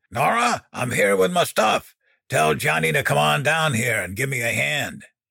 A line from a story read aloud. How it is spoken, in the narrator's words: Dan bellowed